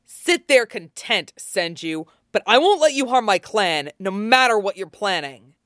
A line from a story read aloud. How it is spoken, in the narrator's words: adds in a snarl